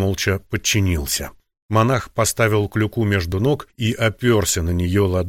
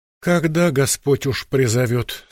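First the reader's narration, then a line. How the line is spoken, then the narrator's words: Sighing. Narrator (Russian): сказал, вздохнув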